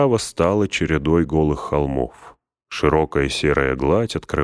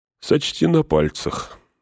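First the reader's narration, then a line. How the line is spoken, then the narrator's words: Sleepy. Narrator (Russian): сонно сказал он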